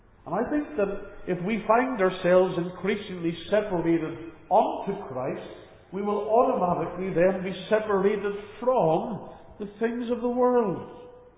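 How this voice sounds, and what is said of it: Northern Irish accent. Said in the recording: “You can tell by my accent, I'm not a local to Tasmania. I'm originally from the United Kingdom, from Northern Ireland in particular.”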